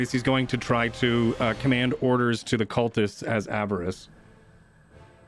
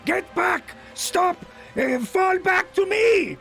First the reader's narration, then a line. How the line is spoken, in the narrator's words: he's going to scream over the ice wall